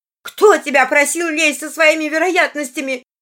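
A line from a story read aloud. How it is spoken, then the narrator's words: Shouting. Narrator (Russian): кричала она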